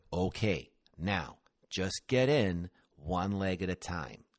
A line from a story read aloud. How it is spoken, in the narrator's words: he slowly enunciated